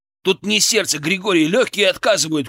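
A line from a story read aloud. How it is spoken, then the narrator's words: Shout. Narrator (Russian): крикнул я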